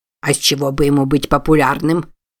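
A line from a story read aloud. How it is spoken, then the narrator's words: Snorting. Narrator (Russian): Фыркнул Дроссель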